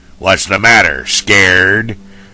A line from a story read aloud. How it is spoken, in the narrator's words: He almost cackled